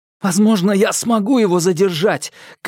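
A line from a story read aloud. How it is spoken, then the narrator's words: Shouted. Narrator (Russian): крикнул он Терезе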